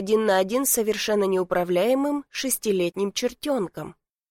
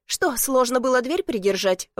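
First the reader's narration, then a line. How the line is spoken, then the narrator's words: Indignant huffing. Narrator (Russian): возмущенно пыхтит она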